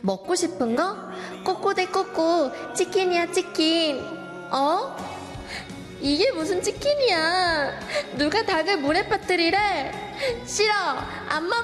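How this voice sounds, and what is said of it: Child's voice. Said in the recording (Korean): “성대모사를 해볼게요. 애기 목소리를 내야 돼서”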